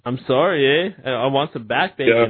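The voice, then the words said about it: Put-on Canadian accent. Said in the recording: “How's my Canadian accent?”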